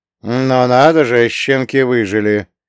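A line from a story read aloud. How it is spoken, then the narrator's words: Grumbling mutter. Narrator (Russian): пробурчал Карло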